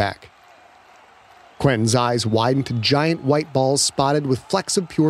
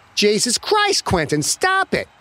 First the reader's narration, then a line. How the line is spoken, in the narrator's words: Yitzhak shouted